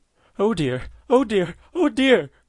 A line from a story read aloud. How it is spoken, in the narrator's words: cried she, for she didn't know what to say, and still couldn't help calling out